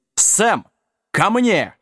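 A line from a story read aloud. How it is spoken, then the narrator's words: Roared. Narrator (Russian): взревел Джек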